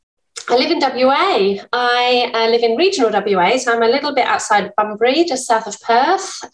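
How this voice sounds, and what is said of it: English accent. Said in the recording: “I'm English, as you can probably tell from my accent,”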